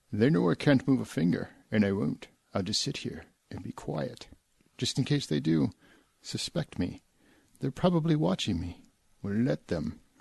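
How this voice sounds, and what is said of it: Put-on bogus accent. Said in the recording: “my bogus accent ... I was more distracted by the accent ... Was that actually like Hitchcock's actual accent? ... No”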